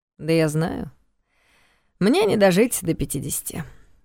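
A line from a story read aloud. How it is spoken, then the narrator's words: Wry snort. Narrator (Russian): хмыкнул Карпатский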